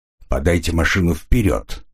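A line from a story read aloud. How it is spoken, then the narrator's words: Plain. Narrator (Russian): сказал я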